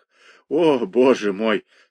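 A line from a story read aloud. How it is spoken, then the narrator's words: Groaning amid laughter. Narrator (Russian): стонал он среди смеха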